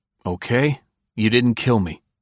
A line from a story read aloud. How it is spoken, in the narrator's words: Barter said evenly